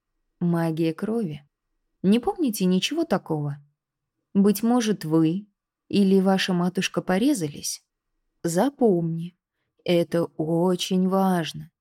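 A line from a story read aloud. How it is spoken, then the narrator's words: Soft but insistent, uncle. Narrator (Russian): мягко, но настойчиво проговорил дядя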